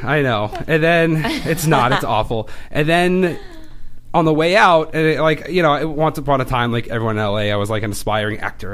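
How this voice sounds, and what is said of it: Boston accent. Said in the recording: “I like your Boston accent. ... It comes out more like when I'm like really chatty, it gets really intense.”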